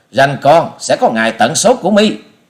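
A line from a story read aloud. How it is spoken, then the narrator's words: Furious loud shout. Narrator (Vietnamese): thiếu nữ áo xanh giận tái mặt quát to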